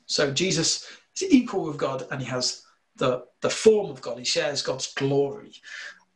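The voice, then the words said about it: Slight northern English accent. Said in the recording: “my slight northern accent”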